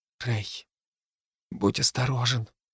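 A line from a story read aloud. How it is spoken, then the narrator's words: Whisper. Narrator (Russian): прошептала Хлоя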